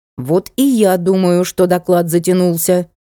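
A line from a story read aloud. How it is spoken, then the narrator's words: Menacing. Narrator (Russian): грозно сказала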